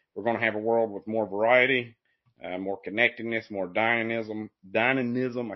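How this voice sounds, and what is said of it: Speaks with a noticeable accent. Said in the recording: “I can't say the word. It's in my accent.”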